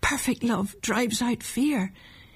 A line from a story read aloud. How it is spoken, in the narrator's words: he murmured to himself over and over again